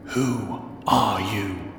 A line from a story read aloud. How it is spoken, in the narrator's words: In German, hissing